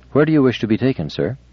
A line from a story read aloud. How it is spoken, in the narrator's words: Giscard said calmly